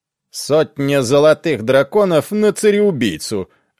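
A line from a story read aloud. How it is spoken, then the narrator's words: Loud announcement. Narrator (Russian): объявил громко мизинец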